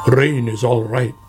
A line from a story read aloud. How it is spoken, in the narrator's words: grumbled Badger